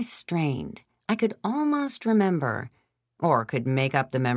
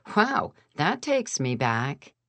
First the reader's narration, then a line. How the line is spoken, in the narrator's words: Aunt Kate had laughed and said